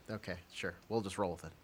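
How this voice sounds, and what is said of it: Quiet Bob Sansevier impression. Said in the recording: “my quiet Bob Sansevier impression ... Kind of Dennis Miller-y, too”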